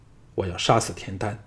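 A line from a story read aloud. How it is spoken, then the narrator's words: Low, grave voice. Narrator (Chinese): 项少龙沉声说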